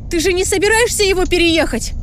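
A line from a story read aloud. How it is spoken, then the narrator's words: Shouted. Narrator (Russian): закричала я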